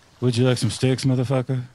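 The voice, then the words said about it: Steven Seagal impression. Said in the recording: “That is a great impression”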